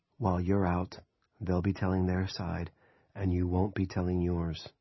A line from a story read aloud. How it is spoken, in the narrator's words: leaned close to her ear and murmured